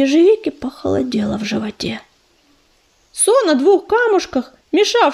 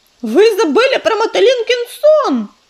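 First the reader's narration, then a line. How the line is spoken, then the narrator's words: Loud shout from cat. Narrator (Russian): громко закричал кто-то из котов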